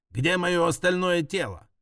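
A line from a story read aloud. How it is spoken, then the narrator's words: Barked. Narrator (Russian): рявкнула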